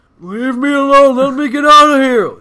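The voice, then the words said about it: Imitates another person's voice. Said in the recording (Hebrew): “אם ניק קייג' עדיין אצלנו באולפן פה ... מה אתה חושב על זה קייג'?”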